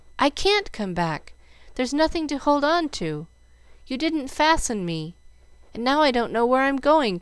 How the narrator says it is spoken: cried Jill

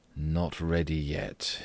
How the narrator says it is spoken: he murmured

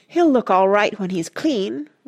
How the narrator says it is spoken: Rush said eagerly

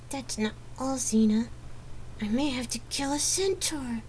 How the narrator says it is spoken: she hissed again

